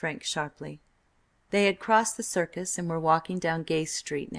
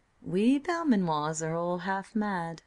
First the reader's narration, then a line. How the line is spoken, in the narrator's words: replied Tracy sweetly